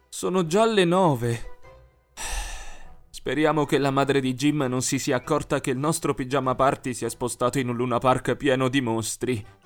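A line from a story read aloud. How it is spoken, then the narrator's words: Sighing. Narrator (Italian): sospirò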